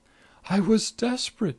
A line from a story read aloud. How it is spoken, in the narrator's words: pleaded